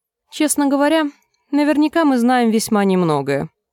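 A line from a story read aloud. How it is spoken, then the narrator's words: Plain. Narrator (Russian): ответил Думинг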